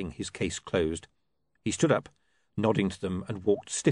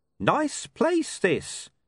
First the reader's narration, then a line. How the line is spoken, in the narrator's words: he added in a slightly overloud voice